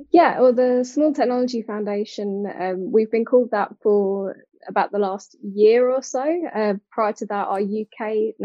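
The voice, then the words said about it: British accent. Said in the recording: “you can hear from my accent, very much British.”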